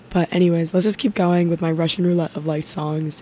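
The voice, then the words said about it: Hoarse, strained voice. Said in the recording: “Pardon my little sickness. I'm not sick. I just lost my voice.”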